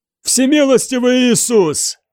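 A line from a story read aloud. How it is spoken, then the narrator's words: Shouting. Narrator (Russian): прокричал мне Финан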